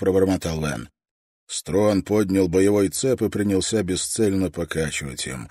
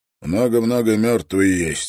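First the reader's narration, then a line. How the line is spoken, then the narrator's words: Hoarse. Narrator (Russian): хрипло произнес Строн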